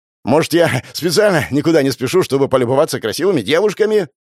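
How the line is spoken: Shouted after someone. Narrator (Russian): крикнул ей вслед Родя

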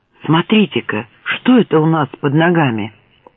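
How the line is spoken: Soft cry, then whisper. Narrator (Russian): Берти тихо вскрикнул и прошептал

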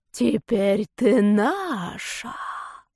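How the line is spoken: Echoing whispers. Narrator (Russian): вторили ему шепотки

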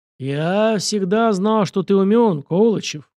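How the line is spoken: Sighing. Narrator (Russian): вздохнул Александр

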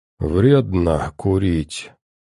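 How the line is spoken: Barely intelligible mumble. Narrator (Russian): едва понятно пробормотал тот

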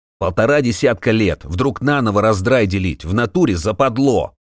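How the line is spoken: Loud indignation. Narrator (Russian): Громко возмущался кто-то

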